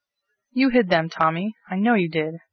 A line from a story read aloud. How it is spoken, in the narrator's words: cried the outraged hostess